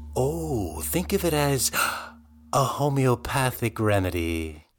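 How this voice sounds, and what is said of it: Creepy acted character voice. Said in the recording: “you sounded like a real creep there”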